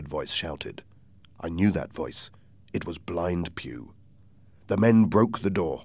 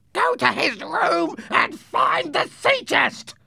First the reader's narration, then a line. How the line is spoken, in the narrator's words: Blind Pew screamed